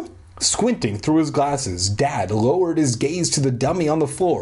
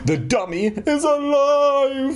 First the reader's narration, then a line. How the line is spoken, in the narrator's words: I shrieked